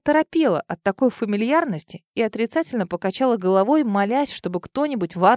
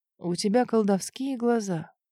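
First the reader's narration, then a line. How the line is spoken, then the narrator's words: Quiet, wistful. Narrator (Russian): тихо, с какой-то тоской произнес он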